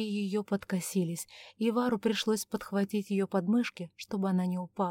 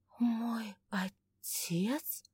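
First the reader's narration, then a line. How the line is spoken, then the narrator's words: Barely audible breath. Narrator (Russian): чуть слышно выдохнула Августа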